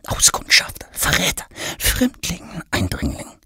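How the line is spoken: Whispers from all sides. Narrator (German): hört Thomas von allen Seiten flüstern

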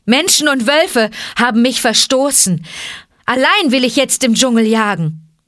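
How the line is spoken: Calling out. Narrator (German): rief Mowgli

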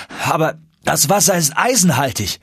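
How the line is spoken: Calling out. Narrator (German): rief

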